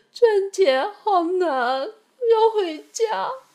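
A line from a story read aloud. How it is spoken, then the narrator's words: Crying. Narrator (Chinese): 哭着说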